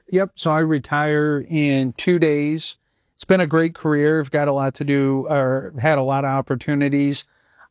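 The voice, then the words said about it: Chicago accent. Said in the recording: “Your Chicago accent comes out often.”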